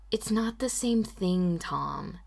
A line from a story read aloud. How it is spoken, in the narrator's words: Anne sighed